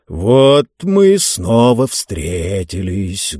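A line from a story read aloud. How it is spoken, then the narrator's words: Dull, hollow voice. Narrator (Russian): глухо начал он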